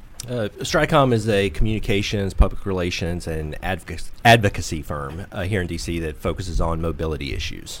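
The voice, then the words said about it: Western North Carolina Southern accent. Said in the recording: “you can probably tell from my accent. I'm from Western North Carolina.”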